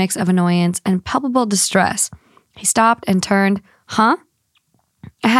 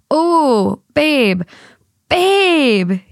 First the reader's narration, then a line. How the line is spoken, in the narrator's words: he cried, his face contorted into a grotesque mask of disgust